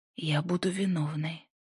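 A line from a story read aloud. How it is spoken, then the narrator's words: Tearful whisper. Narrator (Russian): прошептала она, едва сдерживая слезы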